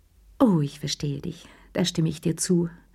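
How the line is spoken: Weary sigh. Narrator (German): seufzte sie mit matter Stimme

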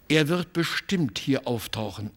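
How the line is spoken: Plain, father. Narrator (German): sagte mein Vater

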